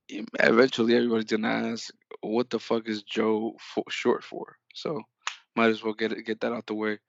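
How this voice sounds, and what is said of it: Voice sounds sick. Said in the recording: “excuse my voice. I'm a bit under the weather.”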